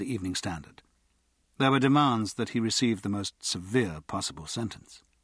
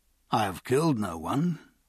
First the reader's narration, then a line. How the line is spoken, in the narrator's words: Pierce replied